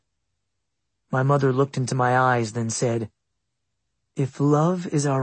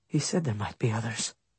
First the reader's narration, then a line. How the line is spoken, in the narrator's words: softly said